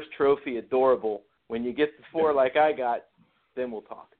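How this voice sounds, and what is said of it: Imitates another person's voice. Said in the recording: “my best jester imitation”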